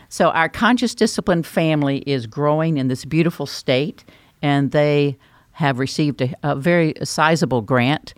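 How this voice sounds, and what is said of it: North Carolina Southern accent. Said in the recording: “if you're thinking that's where my accent came from. That came from North Carolina”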